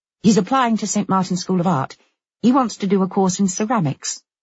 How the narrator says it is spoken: she went on quickly

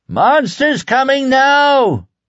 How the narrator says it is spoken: The monster shouter was a tall man who looked to be in his middle 60s

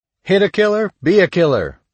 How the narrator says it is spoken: he shouted over and over

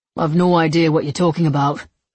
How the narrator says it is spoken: he answered coolly

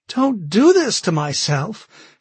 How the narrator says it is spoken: she cried, her voice rising to near hysteria

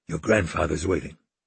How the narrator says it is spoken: he whispered

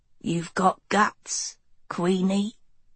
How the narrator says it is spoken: Arliss whispered in her head

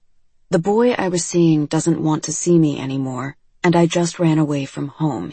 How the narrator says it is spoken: he says

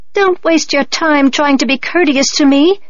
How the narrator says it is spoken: Teacher Mouse squeaked at her

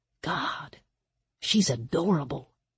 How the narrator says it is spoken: he whispered back

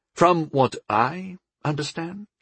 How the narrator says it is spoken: I said slowly

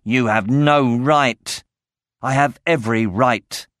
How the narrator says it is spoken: Sloane snarled

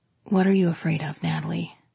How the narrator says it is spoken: He asked, his voice just above a whisper

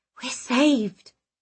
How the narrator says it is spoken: I whispered

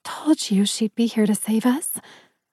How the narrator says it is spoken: she whispered happily

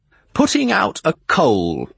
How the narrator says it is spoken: he assured me loudly

